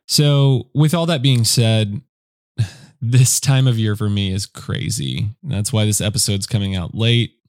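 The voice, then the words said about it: Unusually deep groggy morning voice. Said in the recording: “I have a crazy, weird, deep morning voice ... my voice sounds right now. It's like I'm trying to do a deeper, cool radio voice, ... this is what I sound like first thing in the morning when I haven't even had coffee yet”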